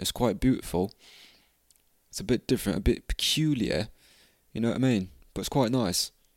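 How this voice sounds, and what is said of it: Poor put-on British accent, Australian-tinged. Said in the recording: “I think I might talk with a British accent for a bit ... It's quite hard ... I think I'm mixing a bit of Australian in the British ... Yeah, that was fucking terrible.”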